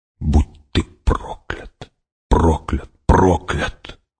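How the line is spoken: Whisper. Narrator (Russian): прошептала она

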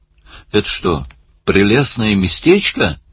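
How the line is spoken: Yelling over surf. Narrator (Russian): заорал Барни, пытаясь перекричать грохот прибоя

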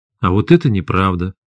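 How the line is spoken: Calm. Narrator (Russian): спокойно сказал Максим

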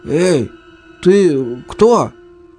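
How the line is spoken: Husky, raspy question. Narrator (Russian): сипло спросил Паша

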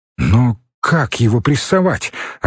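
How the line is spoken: Bewildered, unsure. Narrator (Russian): растерянно сказал он, чувствуя, что не оправдывает высокое доверие

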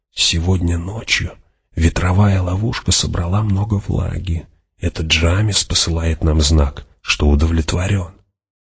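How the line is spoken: Quiet explanation. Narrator (Russian): фримен негромко объяснил

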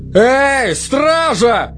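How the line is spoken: Roaring. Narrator (Russian): взревел капитан

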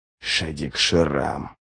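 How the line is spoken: Whispered. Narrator (Russian): прошептал Ничто

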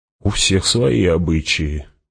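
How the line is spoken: Muttered. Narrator (Russian): пробормотал кто-то

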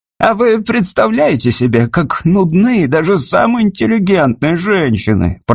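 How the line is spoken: Grumbling. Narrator (Russian): проворчал Клип

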